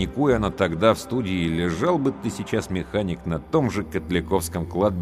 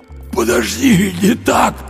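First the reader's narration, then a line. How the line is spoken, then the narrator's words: Hoarse wheeze. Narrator (Russian): просипел Андрей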